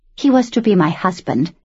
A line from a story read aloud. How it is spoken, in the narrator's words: she said coldly